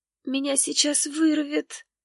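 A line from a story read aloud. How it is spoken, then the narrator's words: Muffled moan. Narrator (Russian): Простонала она, прикрывая ладонью рот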